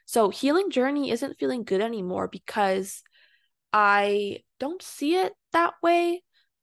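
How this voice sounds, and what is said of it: Voice rising higher in pitch. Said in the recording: “my voice is getting high because it's kind of a touchy subject”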